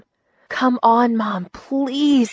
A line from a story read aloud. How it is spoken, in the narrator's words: begged